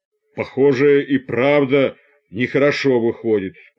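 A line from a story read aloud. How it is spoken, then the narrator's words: Sudden deep bass. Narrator (Russian): пробасил вдруг усатый рабочий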